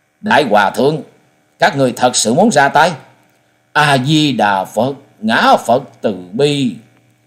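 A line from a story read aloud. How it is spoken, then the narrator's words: Angry. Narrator (Vietnamese): Trần Lâm giận dữ nói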